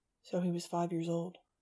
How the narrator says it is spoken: Fang said quietly

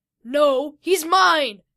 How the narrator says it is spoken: Vito yelled back at the bull giant

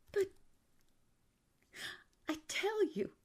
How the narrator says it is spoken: cried Walter

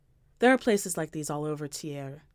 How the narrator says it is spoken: Jones says

